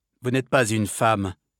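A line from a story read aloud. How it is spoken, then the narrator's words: Cold. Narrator (French): dit froidement Athos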